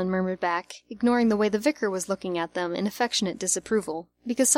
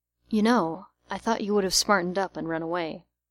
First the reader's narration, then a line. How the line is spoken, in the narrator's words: Arthur, surprised in the oppressive formality of the day, whispering to him